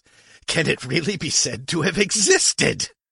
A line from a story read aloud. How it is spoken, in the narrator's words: He was still laughing, wheezing